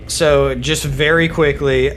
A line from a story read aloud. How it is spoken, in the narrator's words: I yell out to, Dino